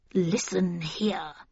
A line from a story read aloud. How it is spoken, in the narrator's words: she said, her voice quavering with anger